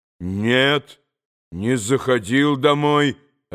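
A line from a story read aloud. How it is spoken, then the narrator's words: Calm reply. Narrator (Russian): ответил Митя, по-видимому, очень спокойно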